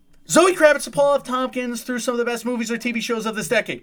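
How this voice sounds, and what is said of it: Fast auctioneer-style patter. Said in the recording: “I'm going to say it in my auctioneer voice.”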